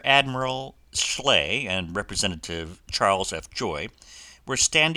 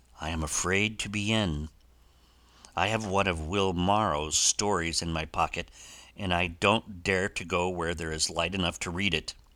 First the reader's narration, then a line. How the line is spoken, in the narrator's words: the journalist replied, with a drear autumnal cadence in his speech, like the moan of a leaf-laden wind